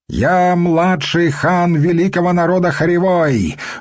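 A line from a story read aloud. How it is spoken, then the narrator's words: Proud shout. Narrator (Russian): выкрикнул подханок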